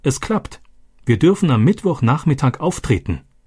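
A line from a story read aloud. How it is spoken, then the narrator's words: Called out. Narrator (German): Roberto rief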